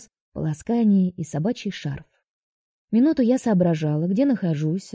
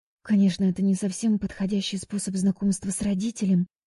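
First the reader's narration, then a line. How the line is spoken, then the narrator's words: Whispered into phone. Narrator (Russian): прошептала я в трубку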